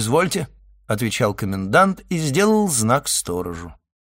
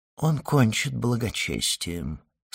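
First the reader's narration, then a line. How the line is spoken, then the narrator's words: Low voice. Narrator (Russian): сказал он вполголоса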